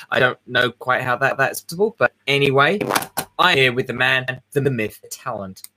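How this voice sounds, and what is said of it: Vaguely British accent. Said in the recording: “the weirdo with the British accent vaguely that apparently is getting British”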